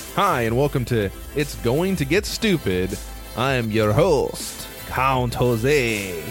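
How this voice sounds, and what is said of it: Put-on accent. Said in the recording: “as you could tell by my accent”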